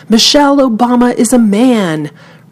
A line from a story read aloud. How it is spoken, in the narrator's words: he shouted